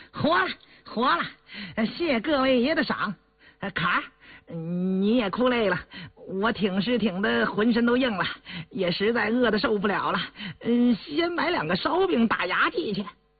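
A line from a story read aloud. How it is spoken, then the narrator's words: Cheeky, grinning. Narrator (Chinese): 狗儿…嬉皮笑脸的…说道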